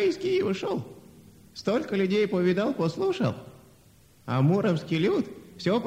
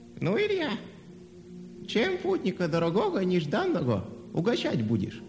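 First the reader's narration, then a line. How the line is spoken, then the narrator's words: Old man speaking. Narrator (Russian): дед сказал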